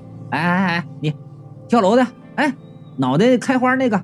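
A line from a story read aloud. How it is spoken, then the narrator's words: Shouting. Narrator (Chinese): 我就喊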